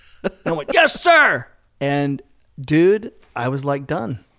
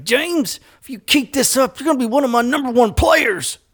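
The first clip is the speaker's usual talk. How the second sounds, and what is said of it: Spot-on impression of a coach. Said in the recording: “You nailed an impersonation of him. Like, that's exactly what he sounded like too.”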